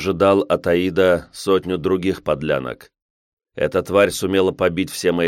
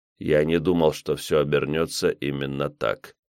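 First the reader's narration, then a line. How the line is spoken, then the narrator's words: Flat emotionless voice. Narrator (Russian): продолжал говорить мертвым безэмоциональным голосом военный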